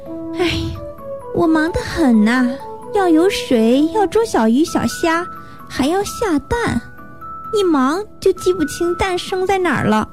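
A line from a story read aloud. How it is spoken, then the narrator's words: Sighing mother duck. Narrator (Chinese): 鸭妈妈叹了一口气说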